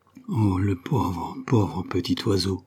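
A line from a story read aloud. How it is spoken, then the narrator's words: Pitying sigh in unison. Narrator (French): soupirèrent-ils ensemble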